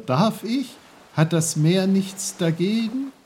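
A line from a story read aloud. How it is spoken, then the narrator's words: Called out. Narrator (German): rief Peter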